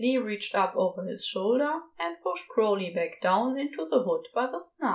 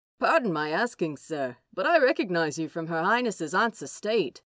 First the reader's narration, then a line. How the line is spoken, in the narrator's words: the guard says in a jovial tone that in Crowley's experience means the person is about to ask something a little daft and a lot awkward